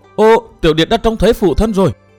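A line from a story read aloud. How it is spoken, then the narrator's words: Joyful cry. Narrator (Vietnamese): Cố Kiếm Nam trên lưng ông reo lên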